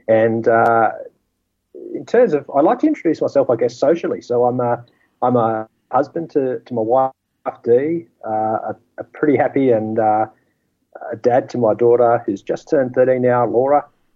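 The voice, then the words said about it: Australian accent. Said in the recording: “it's probably a dead giveaway from the accent that that I live down here in Australia”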